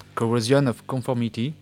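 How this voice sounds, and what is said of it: Band name in a put-on accent. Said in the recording (French): “avec mon bel accent”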